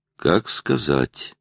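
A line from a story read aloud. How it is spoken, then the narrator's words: Muttered. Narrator (Russian): пробормотал детектив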